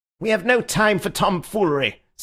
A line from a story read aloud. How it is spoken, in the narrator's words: said the secretary, breaking in savagely